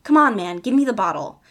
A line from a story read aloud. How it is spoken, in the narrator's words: Eddie said firmly